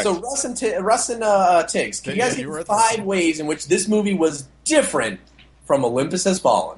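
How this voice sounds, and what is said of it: Game show host voice. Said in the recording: “game show voice ... Don't give me game show voice”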